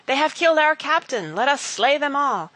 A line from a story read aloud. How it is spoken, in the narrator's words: Wat Tyler's men called out